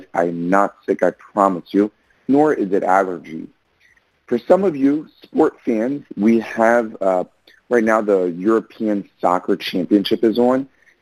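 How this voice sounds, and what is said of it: Hoarse, strained voice. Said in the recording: “my voice is a bit hoarse ... my voice gave out last night as I was cheering a team on”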